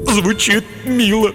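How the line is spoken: Sobbing. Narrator (Russian): всхлипнул тупица

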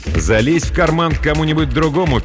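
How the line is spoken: Angry singing. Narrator (Russian): пел Сахар сердито

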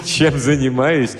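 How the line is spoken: Booming laughter, old man. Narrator (Russian): Старик раскатисто расхохотался

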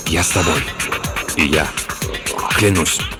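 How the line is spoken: Whispers, several voices in turn. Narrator (Russian): Остальные один за другим стали шептать

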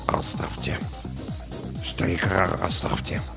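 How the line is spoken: Muttering. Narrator (Russian): Саакас пробормотал

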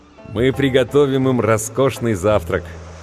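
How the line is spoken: Joyful laughter. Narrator (Russian): Хэтэуэй радостно засмеялся

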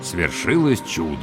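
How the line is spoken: Muttered. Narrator (Russian): пробормотал я

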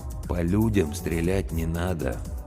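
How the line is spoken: Gentle correction, old man. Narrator (Russian): мягко поправил его старик

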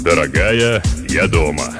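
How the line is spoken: Deep bass announcement. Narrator (Russian): возвестил он глубоким басом

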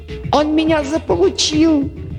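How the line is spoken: Squealing. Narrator (Russian): взвизгнул Дерг

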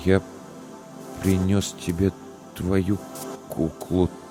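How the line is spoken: Strained, forced out. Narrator (Russian): только и смог выдавить Илья

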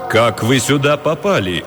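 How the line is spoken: Menacing question. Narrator (Russian): грозно спросил представитель ФБР

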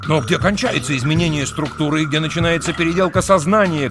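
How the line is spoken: Shouting. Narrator (Russian): крикнул Трурль

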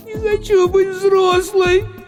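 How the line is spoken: Girl sobbing. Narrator (Russian): всхлипнула девочка

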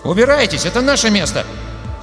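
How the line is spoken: Cracking young indignant voice. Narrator (Russian): заявил он ломким, молодым голосом, полным возмущения

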